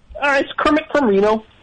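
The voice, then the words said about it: Kermit the Frog character voice. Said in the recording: “your Kermit the Frog impression?”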